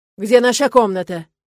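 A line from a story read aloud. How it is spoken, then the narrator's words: Barked. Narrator (Russian): рявкнул он на экономку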